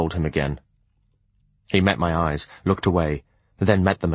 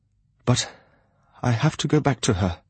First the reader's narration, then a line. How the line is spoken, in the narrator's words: he gasped out